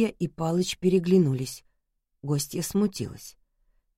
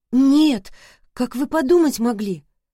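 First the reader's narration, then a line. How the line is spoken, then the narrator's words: Pleading. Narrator (Russian): Владислава взмолилась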